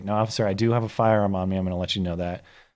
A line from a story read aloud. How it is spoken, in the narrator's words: calmly say